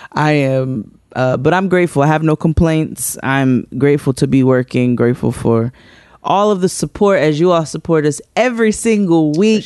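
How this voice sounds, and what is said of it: Tired-sounding voice. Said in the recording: “You can hear the tired in my voice.”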